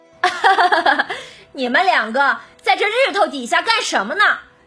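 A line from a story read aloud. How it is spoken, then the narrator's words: Distant laughter. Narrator (Chinese): 远处传来一个笑声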